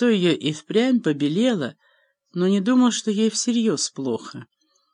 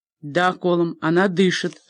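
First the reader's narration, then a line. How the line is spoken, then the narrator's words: Plain. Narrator (Russian): ответил священник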